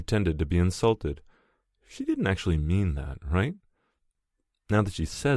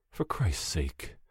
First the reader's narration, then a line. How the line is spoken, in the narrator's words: I'm muttering